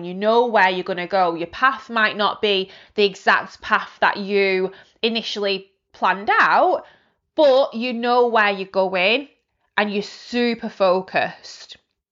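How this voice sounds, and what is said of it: Passionate, intense speaking voice. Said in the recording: “As you can probably hear in my voice, I get very passionate from time to time”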